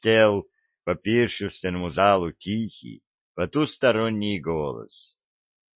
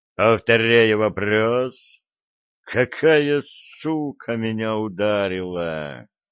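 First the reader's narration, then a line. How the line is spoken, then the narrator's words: Furious, chilling snake-like hiss. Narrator (Russian): Подрагивающий от ярости, напоминающий шипение змеи голос богини, говорящий устами Виталика, наводил леденящую жуть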